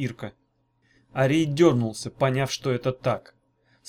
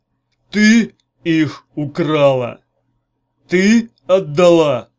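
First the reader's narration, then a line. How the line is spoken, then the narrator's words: Growl. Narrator (Russian): снова прорычал он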